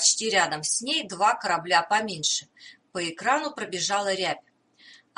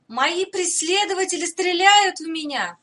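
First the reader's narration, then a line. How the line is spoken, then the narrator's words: Desperate shout. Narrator (Russian): отчаянно крикнула принцесса Хатари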